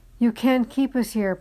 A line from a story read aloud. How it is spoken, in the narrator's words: Pate choked